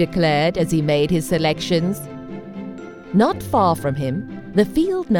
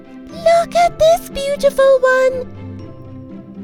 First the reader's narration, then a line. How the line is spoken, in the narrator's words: Daisy cried